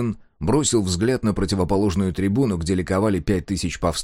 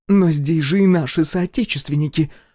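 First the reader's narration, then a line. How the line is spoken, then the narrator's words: Exclaimed. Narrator (Russian): воскликнула Адриана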